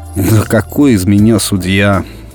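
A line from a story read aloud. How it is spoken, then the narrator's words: Irritated grumble. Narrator (Russian): раздраженно буркнул Виталик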